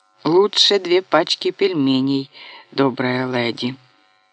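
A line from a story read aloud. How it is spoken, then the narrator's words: Groaned. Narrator (Russian): Кирилл простонал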